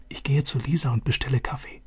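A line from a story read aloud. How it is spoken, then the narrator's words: Whisper. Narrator (German): flüsterte Vater zu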